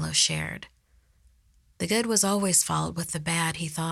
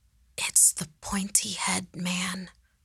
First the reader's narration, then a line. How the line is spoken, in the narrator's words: Andres whispered, a realization washing over his face